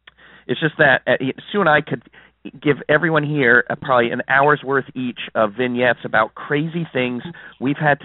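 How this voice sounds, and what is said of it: Hoarse, fading voice. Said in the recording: “I'm losing my voice this morning.”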